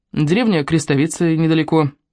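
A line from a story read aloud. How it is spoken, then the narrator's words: Plain. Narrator (Russian): ответила Марго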